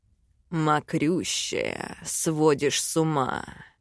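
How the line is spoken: Hoarse breathy husband. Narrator (Russian): Хрипло выдохнул муж

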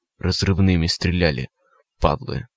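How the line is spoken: Hoarse wheeze. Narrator (Russian): прохрипел странник

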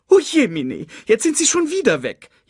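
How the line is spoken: Whining lament. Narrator (German): jammerte Sasu

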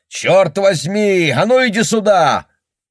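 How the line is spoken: Shouting man. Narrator (Russian): мужчина и закричал

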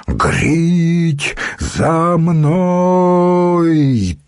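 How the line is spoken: Bull-like roar. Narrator (Russian): Туром взревел

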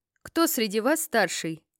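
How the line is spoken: Loud question. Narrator (Russian): спросил громко

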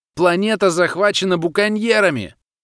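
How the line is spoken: Stranger shouting. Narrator (Russian): крикнул незнакомец

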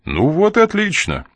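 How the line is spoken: Cheerful. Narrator (Russian): бодро проговорил Коридон

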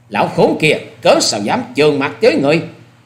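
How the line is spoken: Furious shout. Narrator (Vietnamese): Ta Trinh Trinh giận xông lên rồi quát lớn

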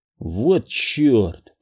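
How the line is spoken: Muttered. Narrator (Russian): пробормотал я

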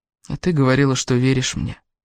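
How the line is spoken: Sad. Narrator (Russian): печально произнес Кевин

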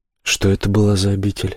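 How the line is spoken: Calm question. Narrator (Russian): спокойно спрашивает грешник

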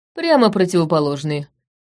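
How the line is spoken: Dragon's snort. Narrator (Russian): хмыкнул дракон

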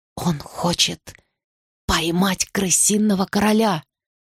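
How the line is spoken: Whispered. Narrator (Russian): шепотом проговорила я

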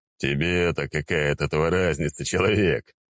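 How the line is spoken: Demon's scoffing snort. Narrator (Russian): хмыкнул демон

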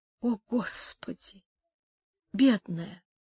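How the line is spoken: Muttered. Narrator (Russian): пробормотал Антонио

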